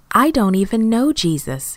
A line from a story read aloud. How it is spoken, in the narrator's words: he exclaimed